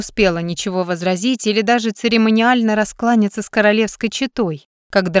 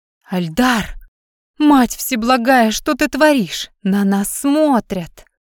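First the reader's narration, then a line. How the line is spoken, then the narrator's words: Hissed rebuke. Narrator (Russian): Зашипела она ему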